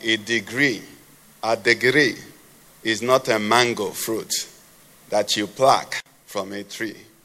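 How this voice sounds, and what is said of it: Imitated Ghanaian accent. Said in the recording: “with his Ghanaian accent”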